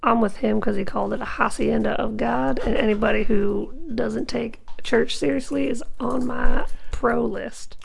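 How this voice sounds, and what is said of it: Put-on strong Southern US accent. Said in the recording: “your Delaware accent is super southern”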